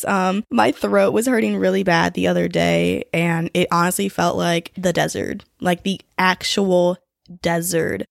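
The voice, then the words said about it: Voice sounds sick from a cold. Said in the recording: “my voice sounds different, it's because I am slightly sick right now. I just have like a cold”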